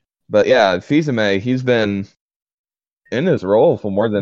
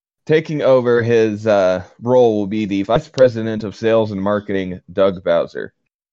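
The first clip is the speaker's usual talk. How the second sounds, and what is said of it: Formal read-aloud reading voice. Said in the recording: “You're definitely doing a reading voice.”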